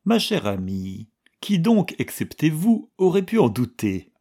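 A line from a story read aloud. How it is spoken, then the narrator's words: Asked cheerfully. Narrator (French): demanda gaiement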